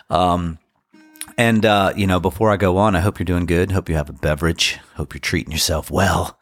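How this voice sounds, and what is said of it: Congested voice from a cold. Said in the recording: “I have a cold, so I'm going to sound a little bit more like an actual DJ from back in the day.”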